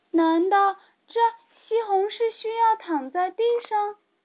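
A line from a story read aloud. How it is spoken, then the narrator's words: Surprised shout. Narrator (Chinese): 茉莉也吃惊的大叫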